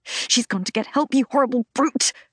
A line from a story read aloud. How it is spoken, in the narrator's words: hiss